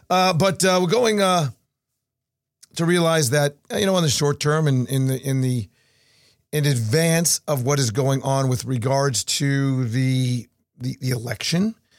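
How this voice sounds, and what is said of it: Strained, slightly hoarse voice. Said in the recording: “My voice is a little bit out. I'm going to have to get some tea here.”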